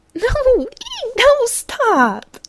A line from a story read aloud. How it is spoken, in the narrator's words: giggling in hysterically high pitches as she struggled